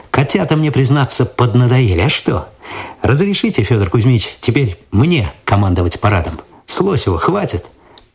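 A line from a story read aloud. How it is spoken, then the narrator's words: Thoughtful smirk. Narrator (Russian): Цветков задумчиво усмехнулся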